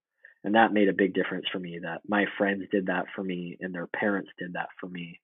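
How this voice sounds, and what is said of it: Emotional, choked-up voice. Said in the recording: “sorry, I'm getting a little emotional.”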